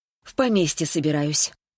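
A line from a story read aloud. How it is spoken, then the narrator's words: Sighing reply. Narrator (Russian): вздохнула в ответ Светлана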